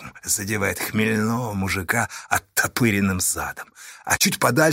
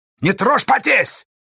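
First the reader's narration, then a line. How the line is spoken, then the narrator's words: Shouted. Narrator (Russian): крикнул Асташа Поздею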